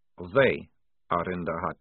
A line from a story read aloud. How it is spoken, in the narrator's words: said Maledict flatly